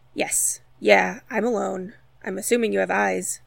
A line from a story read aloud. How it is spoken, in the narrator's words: said bitterly